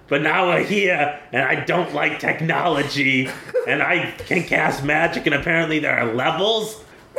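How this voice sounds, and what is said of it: Imitates another person's voice. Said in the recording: “here's my impression of the person who told that story”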